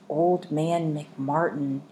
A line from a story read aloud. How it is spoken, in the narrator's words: whispered